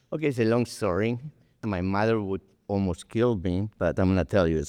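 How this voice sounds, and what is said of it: Speaks with a noticeable accent. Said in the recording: “you and your accent”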